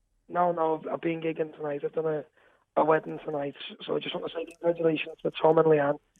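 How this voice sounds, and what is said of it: Slightly hoarse voice. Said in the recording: “you're sounding a bit hoarse”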